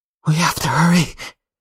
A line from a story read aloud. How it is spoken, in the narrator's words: Lottie says, her voice thick with fear